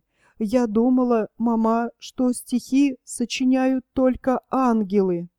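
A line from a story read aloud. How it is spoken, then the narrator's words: Tearful, through tears. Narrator (Russian): Верочка проговорила сквозь слезы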